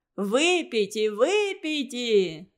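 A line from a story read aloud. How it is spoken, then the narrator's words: Laughing crowd. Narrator (Russian): засмеялись все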